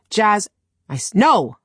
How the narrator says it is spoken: I snapped

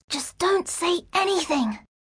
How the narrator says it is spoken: she whispered down

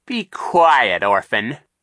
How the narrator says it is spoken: Captain Sham snapped

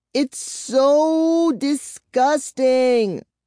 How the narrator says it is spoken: she wailed

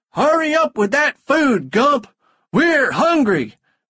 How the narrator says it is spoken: they shouted

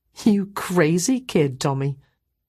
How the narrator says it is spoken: I laughed too and said

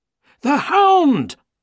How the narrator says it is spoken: Holmes shouted

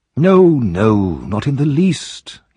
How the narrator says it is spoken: he replied

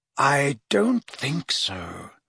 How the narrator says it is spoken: said Dumbledore quietly

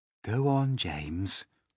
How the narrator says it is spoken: the ladybird said gently

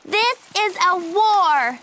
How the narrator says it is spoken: She shouted

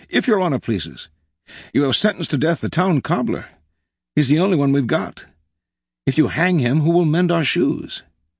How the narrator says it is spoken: a townsman arose and cried out

